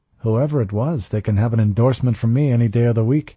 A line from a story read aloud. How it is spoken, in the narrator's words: Ortega said cheerfully